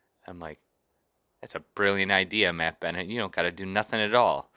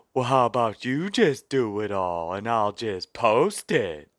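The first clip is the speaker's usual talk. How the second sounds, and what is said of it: Impression of Matt Bennett. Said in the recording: “I do a pretty good Matt Bennett impression.”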